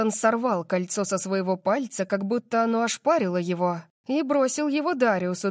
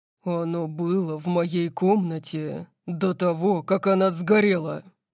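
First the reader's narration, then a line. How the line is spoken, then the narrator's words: Growled. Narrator (Russian): прорычал Дариус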